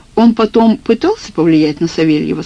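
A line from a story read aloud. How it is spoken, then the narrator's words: Plain question. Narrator (Russian): спросил я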